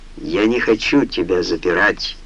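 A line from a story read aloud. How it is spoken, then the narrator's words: Weary reply. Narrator (Russian): устало отозвался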